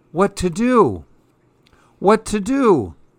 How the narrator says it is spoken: the man cried

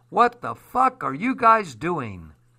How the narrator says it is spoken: cried

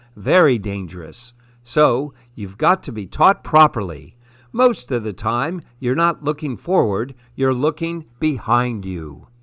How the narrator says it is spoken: he laughs

